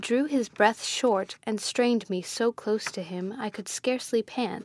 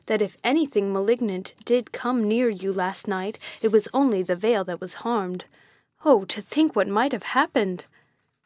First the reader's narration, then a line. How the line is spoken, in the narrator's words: exclaimed